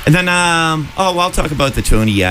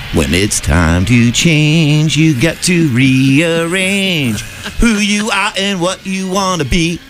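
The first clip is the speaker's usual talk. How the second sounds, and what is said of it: Sings imitating a TV character's voice. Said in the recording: “my Bobby Brady impersonation ... Perfect. Perfect.”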